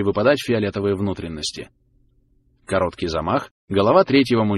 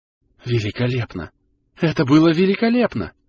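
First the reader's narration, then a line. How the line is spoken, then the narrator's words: Breathless, daughter. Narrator (Russian): выдохнула дочь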